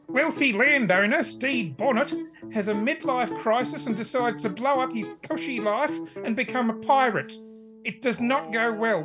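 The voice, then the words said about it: Pirate character voice, Kiwi accent. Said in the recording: “A pirate, of course. ... Pirate old Greg ... with a Kiwi accent.”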